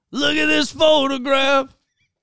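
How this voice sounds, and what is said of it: Imitates another person's voice. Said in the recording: “I love doing that impression.”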